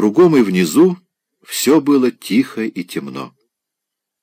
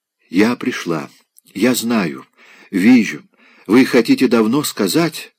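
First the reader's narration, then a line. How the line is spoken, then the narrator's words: Mysterious whisper. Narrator (Russian): шептала Полина Карповна таинственно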